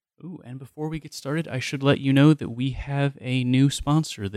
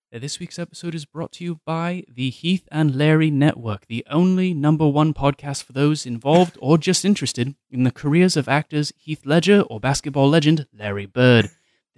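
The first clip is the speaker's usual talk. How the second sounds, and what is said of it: Put-on accent. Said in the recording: “They've asked me to put on an accent, so please do forgive me here”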